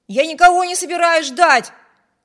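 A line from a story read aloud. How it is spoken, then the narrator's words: Shout. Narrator (Russian): крикнул Виберт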